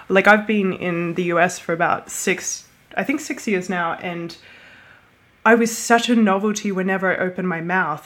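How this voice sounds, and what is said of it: Australian accent with American influence. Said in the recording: “you can hear an American accent in my voice”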